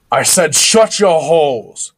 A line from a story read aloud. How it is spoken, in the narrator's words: the dark boy yelled